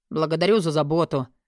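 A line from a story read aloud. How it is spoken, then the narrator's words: Grumbled. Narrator (Russian): пробурчал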